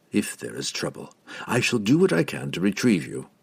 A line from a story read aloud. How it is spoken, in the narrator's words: he said quietly